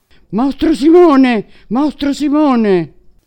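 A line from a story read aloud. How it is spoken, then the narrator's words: Wicked queen's dreadful shout. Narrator (Italian): la cattiva regina gridò con voce tremenda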